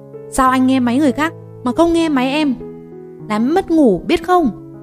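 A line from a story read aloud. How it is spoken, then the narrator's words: Screaming. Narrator (Vietnamese): Em gào lên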